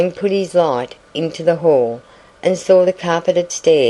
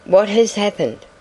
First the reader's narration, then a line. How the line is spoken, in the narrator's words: asked the girl in a troubled voice